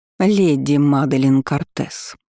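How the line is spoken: Icy voice. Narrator (Russian): произнесла та ледяным голосом

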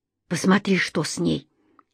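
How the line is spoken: Girl's mumble. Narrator (Russian): пробормотала девушка

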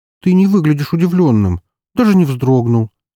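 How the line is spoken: Hurt sigh. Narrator (Russian): обиженно вздохнула Рокси

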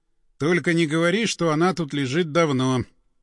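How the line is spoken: Flat colorless voice. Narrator (Russian): каким-то бесцветным голосом сказал напарник

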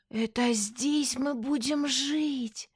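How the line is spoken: Breathless exhale. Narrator (Russian): выдохнула Динара

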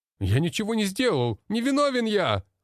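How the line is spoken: Desperate shouting. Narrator (Russian): кричал блондин, пытаясь вырваться

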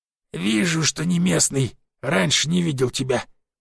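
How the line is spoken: Groaning mutter. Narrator (Russian): кряхтя пробормотал Бирюк

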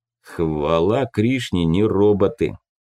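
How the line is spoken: Grumbled. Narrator (Russian): проворчал Тополь

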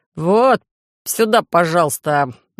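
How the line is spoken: Meaningful snort. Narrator (Russian): многозначительно хмыкнул провожатый

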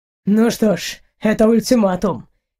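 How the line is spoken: Joyless snort. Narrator (Russian): невесело хмыкнул Эйнар

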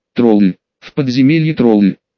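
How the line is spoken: Groaning. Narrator (Russian): Простонал

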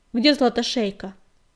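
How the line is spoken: Rough, sharp question. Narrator (Russian): спросил он, и вопрос его прозвучал неожиданно грубо и резко

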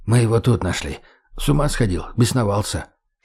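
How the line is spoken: Whisper. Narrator (Russian): шепнул Леха

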